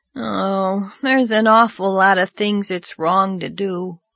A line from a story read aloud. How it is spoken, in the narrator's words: said Davy with a sigh